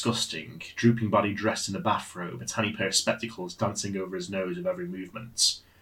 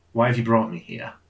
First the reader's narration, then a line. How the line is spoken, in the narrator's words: Ernest chuckled